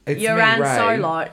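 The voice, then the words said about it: Put-on Australian accent character voice. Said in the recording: “that was my Ray impression... it sounded kind of like Australian Ray”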